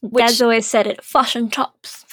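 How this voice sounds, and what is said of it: Mock New Zealand accent. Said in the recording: “That's Australian people making fun of the New Zealand accent.”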